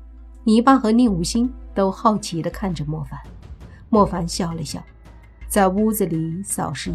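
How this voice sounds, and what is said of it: Usual voice. Nothing is said of it.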